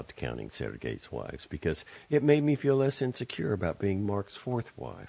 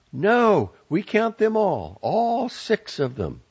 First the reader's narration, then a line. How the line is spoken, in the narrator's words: But I yelled from my couch